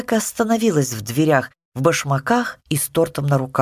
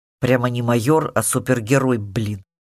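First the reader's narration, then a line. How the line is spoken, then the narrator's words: Grumbled. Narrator (Russian): буркнул сын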